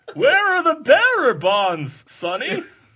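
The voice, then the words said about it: Old man character voice. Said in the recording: “I can do numerous voices. ... I can be an old man.”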